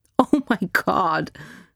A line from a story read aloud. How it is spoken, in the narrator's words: Heather's laugh was almost a cackle